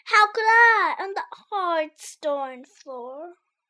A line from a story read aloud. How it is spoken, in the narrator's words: Sammy sighed